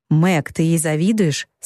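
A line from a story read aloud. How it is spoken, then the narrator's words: Plain. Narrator (Russian): спросил Лори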